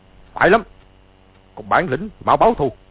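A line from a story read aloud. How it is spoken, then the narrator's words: Angry shout. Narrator (Vietnamese): Từ Ân quát lên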